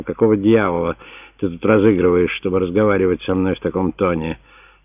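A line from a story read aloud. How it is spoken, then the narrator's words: Growling. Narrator (Russian): Веспасиан прорычал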